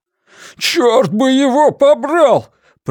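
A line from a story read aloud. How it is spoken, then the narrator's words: Shouting. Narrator (Russian): прокричал Блейз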